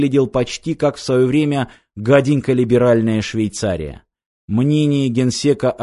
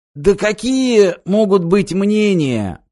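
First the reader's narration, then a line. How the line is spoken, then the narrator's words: Hoarse wheeze. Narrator (Russian): просипел усатый радикал Кулашенко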